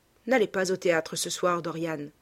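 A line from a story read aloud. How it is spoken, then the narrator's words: Plain. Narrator (French): dit Hallward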